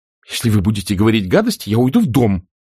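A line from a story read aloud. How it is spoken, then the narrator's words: Exclaimed. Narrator (Russian): воскликнула Скарлетт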